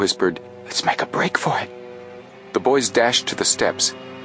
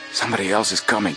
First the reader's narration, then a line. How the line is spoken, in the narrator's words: Frank muttered